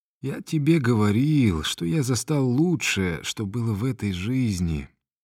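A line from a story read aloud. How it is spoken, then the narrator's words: Weak hoarse lecturing. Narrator (Russian): назидательно проговорил он слабым сиплым голосом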